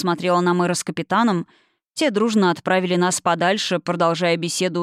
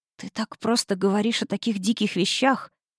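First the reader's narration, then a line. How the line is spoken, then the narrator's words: Whispered. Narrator (Russian): прошептала я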